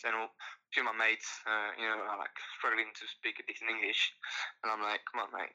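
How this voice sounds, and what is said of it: French accent. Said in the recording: “you have a very exotic accent ... your accent ... French accent”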